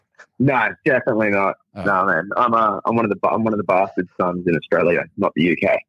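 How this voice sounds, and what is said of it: Australian accent. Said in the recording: “And you live in the UK? ... I'm Australian, but I live in America. ... I'm horrible with accents.”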